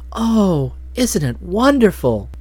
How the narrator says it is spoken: Nadia breathed

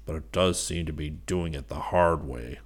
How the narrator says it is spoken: he muttered

